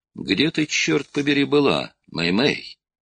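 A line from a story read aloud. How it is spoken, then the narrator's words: Irritated tone hiding relief. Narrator (Russian): спросил он, стараясь скрыть за раздраженным тоном чувство глубокого облегчения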